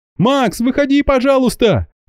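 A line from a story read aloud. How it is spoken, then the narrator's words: Panicked shouting. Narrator (Russian): в панике закричала Марина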